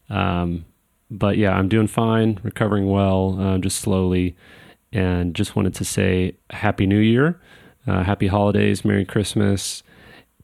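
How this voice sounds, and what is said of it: Groggy, drowsy voice. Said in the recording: “I sound a little groggy,... it's because I'm on medication for the pain”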